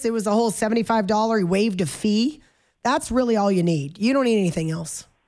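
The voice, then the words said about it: Sarcastic tone. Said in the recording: “I'm being sarcastic, of course.”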